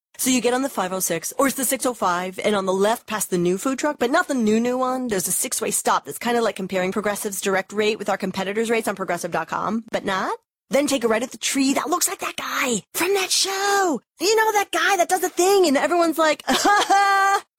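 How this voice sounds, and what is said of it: Imitates a rambling bad direction-giver. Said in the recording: “my impression of someone who is terrible at giving directions”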